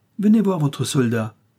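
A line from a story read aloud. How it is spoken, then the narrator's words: Old man shouting. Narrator (French): cria le vieux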